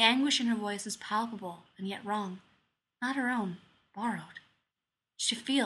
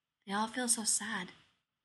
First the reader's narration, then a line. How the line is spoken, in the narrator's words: the girl says in a soft voice